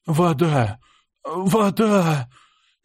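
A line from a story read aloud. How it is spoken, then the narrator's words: Hoarse whisper. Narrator (Russian): Хрипло прошептал я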